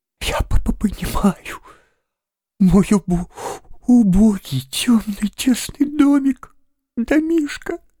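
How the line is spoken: Forced out through sobs. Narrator (Russian): Наконец выдавил он из себя сквозь рыдание

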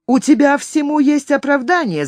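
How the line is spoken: Shouting. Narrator (Russian): закричал он на Артура

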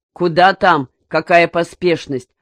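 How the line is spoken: Grumbled. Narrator (Russian): проворчал Медведев

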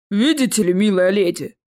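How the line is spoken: Deep bass reply. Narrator (Russian): пробасил в ответ роль

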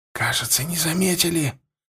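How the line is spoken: Whispered. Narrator (Russian): прошептал Егоров

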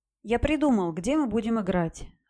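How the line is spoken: Joyful announcement. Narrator (Russian): радостно сообщил Золото

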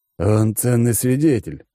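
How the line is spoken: Wry snort. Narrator (Russian): хмыкнул Алекс

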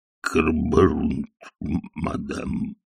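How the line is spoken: Muttering. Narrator (Russian): пробормотал он

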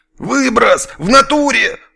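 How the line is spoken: Unseen guard yelling. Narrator (Russian): заорал невидимый отсюда охранник

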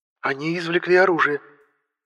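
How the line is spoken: Tense voice. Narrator (Russian): напряженным голосом произнесла Летра

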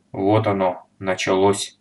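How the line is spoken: Calm. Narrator (Russian): спокойно заметил старшина

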